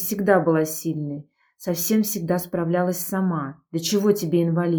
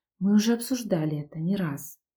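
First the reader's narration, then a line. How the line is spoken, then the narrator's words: Calm, suppressed emotion. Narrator (Russian): ответила спокойно, но внутри все кипело от едва сдерживаемых эмоций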